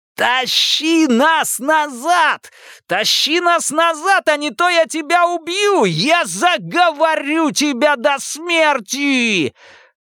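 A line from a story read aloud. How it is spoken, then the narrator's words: Screaming again. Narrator (Russian): Паучиха закричала вновь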